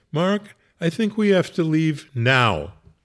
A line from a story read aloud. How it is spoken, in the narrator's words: Tommy said in a fairly urgent voice